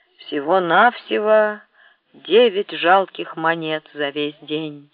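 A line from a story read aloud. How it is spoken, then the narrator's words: Displeased voice. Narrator (Russian): проговорил недовольным голосом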